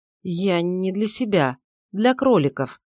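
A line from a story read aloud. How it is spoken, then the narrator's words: Flustered mumble. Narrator (Russian): промямлил растерявшийся попавший в просак Миша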